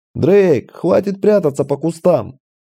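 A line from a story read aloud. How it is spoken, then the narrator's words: Yell. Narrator (Russian): заорал я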